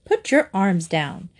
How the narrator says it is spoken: said his mother firmly

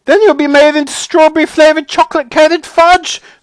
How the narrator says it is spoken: screamed Mrs

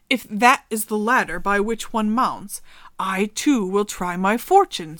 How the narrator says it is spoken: said he

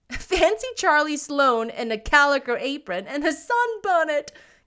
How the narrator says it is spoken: giggled Priscilla

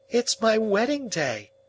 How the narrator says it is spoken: cried Biddy in a burst of happiness

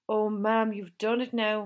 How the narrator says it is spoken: Moira Carroll moaned

